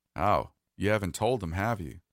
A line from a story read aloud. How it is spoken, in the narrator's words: He let out a good, deep chuckle and said